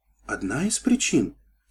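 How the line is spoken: Quiet, dejected question. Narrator (Russian): тихо переспросила Сильвер, погасшим взглядом

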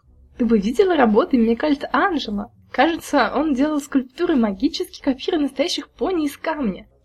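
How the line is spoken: Laughing. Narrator (Russian): Черри рассмеялась

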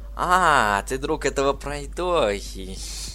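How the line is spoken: Giggling. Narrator (Russian): Хихикнула пони

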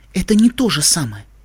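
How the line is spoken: Quiet. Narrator (Russian): сказала она тихо

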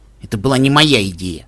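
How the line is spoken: Grumbling. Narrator (Russian): буркнул Джерри

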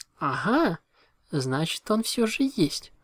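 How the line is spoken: Joyful exclamation. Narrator (Russian): радостно воскликнула Винил

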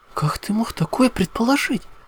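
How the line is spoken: Indignant. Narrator (Russian): возмутилась Твайлайт

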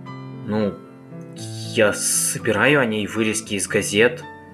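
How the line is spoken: Hesitant reply. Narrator (Russian): неуверенно ответил

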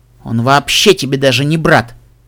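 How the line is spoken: Snapped. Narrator (Russian): огрызнулась Элизабет

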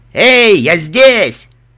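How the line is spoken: Shouting with all strength. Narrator (Russian): капитан изо всех сил закричал

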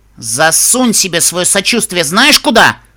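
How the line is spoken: Angry outburst. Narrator (Russian): Взвилась Рабуста

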